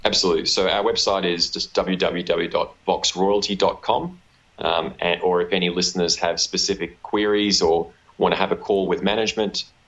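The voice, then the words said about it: Australian accent. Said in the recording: “why is your accent so strange ... my unfortunate Australian accent”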